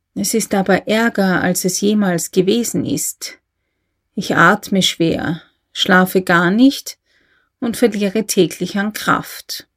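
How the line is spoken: Quiet. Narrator (German): sagte der Advokat leise

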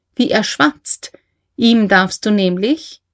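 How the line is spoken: Laughing. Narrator (German): sagte Leni lachend

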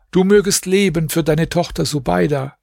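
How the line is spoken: Calling across. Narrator (German): rief er ihm zu

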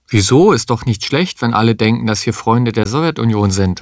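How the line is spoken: Plain. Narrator (German): sagte Frau Kuppisch

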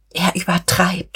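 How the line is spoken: Groaning poet. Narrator (German): stöhnte die Dichterin

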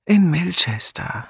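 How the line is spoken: Tired answer. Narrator (German): antwortete Julia müde

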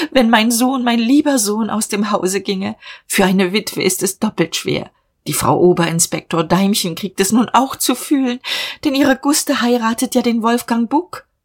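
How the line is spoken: Sobbing. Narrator (German): schluchzte sie

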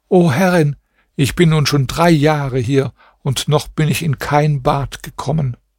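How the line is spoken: Tearful voice. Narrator (German): sagte die Prinzessin mit weinender Stimme

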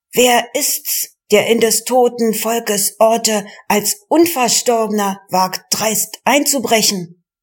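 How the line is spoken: Defiant shouting. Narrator (German): trotzig schrien die Frechen

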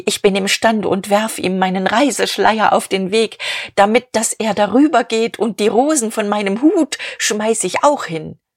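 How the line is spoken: Called out. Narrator (German): rief

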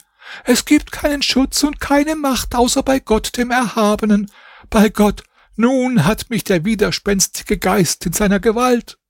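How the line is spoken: Screamed in shock. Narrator (German): als sie den Hahn geschlachtet und die Kiste umgestürzt sah, schrie sie

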